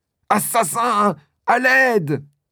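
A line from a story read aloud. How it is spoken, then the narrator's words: Woman screaming. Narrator (French): crie-t-elle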